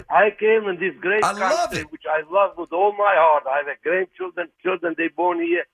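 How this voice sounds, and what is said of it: Non-native English accent. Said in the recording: “you make fun of my accent ... your accent ... I said I loved it.”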